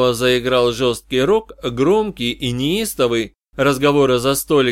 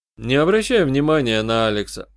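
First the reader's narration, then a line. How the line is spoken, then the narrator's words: Calm advice. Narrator (Russian): спокойно посоветовал я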